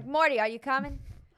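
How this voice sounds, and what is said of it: Put-on New York accent. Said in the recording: “I think you're doing, like, a New York, like – ... thing. ... My New York accent.”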